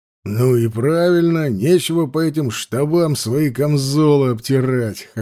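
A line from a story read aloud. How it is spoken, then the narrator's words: Short chuckle. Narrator (Russian): хохотнул Бестужев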